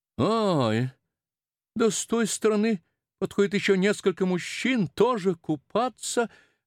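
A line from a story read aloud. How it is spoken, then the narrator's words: Horrified exclamation. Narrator (Russian): воскликнула его мать тоном ужаса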